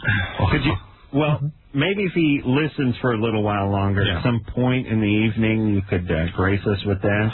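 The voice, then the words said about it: Nasal droning voice. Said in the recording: “That nasally drone”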